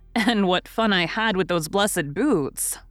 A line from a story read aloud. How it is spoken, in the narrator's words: laughed Joe